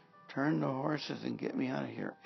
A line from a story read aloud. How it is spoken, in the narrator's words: Ahab groaned to the driver of his chariot